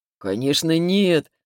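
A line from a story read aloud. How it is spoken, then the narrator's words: Condescending laugh. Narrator (Russian): снисходительно рассмеялся он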